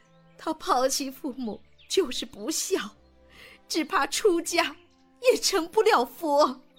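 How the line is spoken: Crying. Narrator (Chinese): 王夫人哭着说

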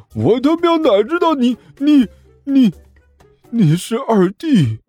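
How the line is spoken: Shocked stammer. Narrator (Chinese): 那人……震惊

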